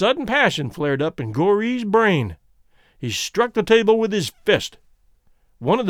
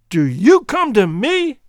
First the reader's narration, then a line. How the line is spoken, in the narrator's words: he shouted